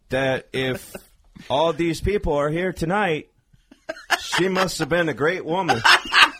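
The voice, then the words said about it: Imitates another person's voice, put-on accent. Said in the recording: “Is this your accent?”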